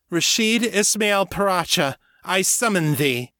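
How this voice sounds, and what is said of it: Loud, commanding call. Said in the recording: “calling out in a loud voice”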